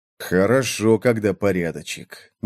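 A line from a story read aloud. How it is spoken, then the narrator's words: Grumbled. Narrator (Russian): буркнул Джоакин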